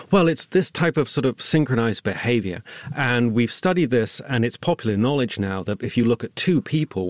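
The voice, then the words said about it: Mixed Swindon and Californian accent. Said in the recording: “my Swindon, Californian accent”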